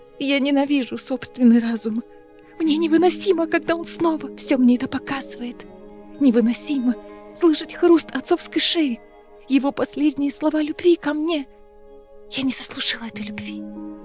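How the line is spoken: Whispered. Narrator (Russian): прошептала Неста

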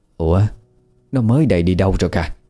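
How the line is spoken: Old woman's confused muttering. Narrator (Vietnamese): Bà miệng lẩm bẩm khó hiểu

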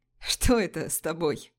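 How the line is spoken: Laughing. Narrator (Russian): засмеялся Пижон

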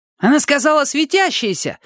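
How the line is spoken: Shouted. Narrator (Russian): выкрикнул

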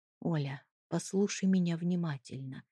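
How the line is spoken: Quiet, almost whispering. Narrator (Russian): тихо сказал он, почти шепча

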